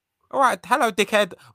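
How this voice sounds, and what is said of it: Good Zack Sabre Jr. impression. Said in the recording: “In the most Zack Sabre Jr. way possible ... that's a really good impression ... That was really good ... Eddie K does a Zack Sabre Jr. impression”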